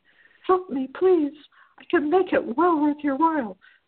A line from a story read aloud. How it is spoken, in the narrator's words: pleaded a soft, anguish-strewn voice